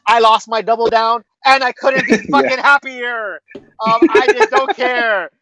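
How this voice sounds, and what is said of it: Giddy, excited voice. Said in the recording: “tell from my voice, I'm a little giddy”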